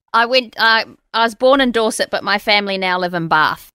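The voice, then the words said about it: New Zealand accent. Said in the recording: “I've got a Kiwi accent because I've lived in New Zealand a long time.”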